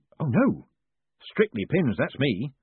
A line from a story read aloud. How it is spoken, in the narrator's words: said Moist hastily